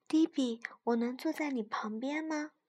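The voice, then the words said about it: Quiet, soft-spoken voice. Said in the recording (Chinese): “小声”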